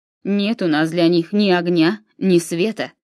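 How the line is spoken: Menacing. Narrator (Russian): грозно молвил Тур

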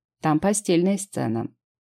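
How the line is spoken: Plain. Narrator (Russian): сказал Андерс

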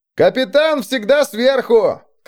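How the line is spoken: Shout from back row. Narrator (Russian): крикнул кто-то из заднего ряда

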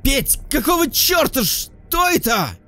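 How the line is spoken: Exasperated shout. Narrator (Russian): Не выдержав, крикнул Лёшка

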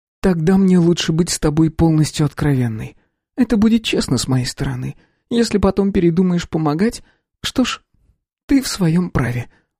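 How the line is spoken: Sighing. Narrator (Russian): вздохнула она

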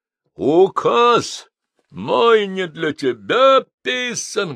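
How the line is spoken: Thunderous bark. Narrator (Russian): громовым голосом гаркнул он

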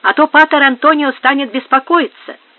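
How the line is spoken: Shouted. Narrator (Russian): крикнула кучеру Инес

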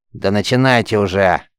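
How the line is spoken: Angry grumble, woman. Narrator (Russian): сердито буркнула варварка

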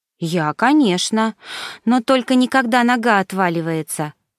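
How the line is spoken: Moaning. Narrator (Russian): простонала Миша

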